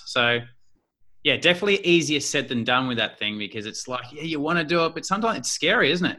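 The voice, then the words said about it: Australian accent. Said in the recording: “my Australian lingo ... I was worried about my accent ... are they going to see my accent as a bad thing”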